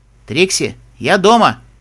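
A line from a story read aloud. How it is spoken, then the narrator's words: Loud young man. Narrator (Russian): громко сказал парень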